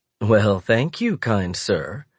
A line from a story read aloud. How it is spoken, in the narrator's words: she says with a genial laugh